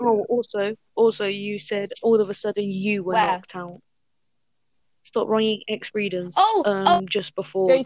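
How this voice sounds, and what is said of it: Heavy British accent. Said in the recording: “You now have a very heavy British accent.”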